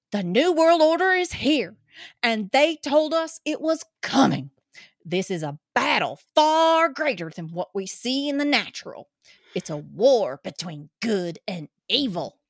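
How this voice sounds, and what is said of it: Put-on Georgia Southern accent. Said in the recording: “gonna read this like my cousins out in Georgia ... Please let me put back on the New York accent.”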